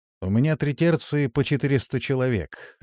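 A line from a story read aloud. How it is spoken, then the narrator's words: Plain. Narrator (Russian): ответил Зарк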